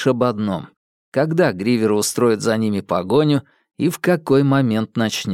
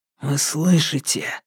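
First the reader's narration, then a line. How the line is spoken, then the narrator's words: Whisper. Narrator (Russian): прошептал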